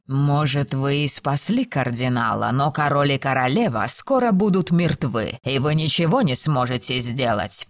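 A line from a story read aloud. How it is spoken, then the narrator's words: Snarl. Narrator (Russian): прорычал священник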